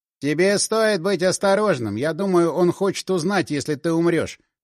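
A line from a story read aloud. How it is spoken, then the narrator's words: Plain. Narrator (Russian): сказал он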